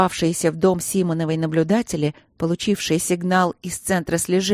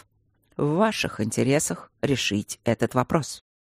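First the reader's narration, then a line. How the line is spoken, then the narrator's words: Calm caller on phone. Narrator (Russian): спокойно сказал звонивший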